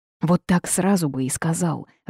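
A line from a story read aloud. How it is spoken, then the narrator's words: Growled. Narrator (Russian): рыкнула я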